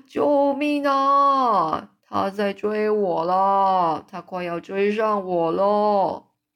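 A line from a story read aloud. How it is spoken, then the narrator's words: Giant's frantic scream. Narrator (Chinese): 这吞食巨人一边疯狂的挣扎，一边尖叫说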